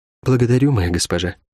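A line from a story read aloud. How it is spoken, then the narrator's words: Quiet. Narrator (Russian): тихо сказала Рукавичка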